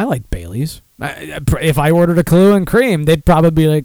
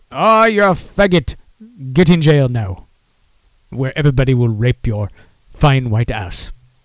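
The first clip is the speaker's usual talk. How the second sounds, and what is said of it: James Earl Jones-style accent. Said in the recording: “I don't even know what the fuck that accent was. I think it was um, James Earl Jones in Coming to America or something.”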